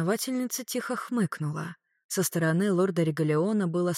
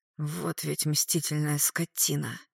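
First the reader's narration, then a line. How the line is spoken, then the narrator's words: Hissed. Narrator (Russian): прошипел он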